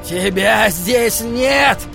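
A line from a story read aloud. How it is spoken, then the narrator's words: Shrill shout. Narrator (Russian): Пронзительно выкрикнул Холлоран рычащему льву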